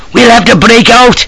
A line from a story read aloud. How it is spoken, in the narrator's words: shouted